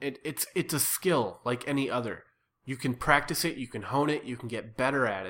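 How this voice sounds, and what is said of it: Usual voice. Nothing is said of it.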